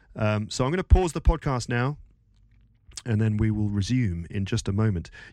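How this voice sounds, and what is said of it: Congested, stuffy-nosed voice. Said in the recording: “suffering from hard work and a bad cold ... go and blow my nose ... Hopefully when I come back, my voice is going to sound a little bit clearer.”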